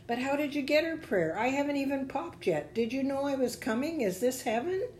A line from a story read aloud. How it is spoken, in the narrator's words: The voice chuckled